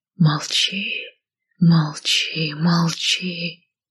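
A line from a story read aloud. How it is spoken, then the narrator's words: Whispering shadows. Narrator (Russian): шептали тени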